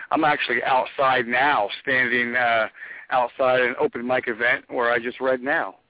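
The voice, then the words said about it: Tired-sounding voice. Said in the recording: “I sound kind of tired.”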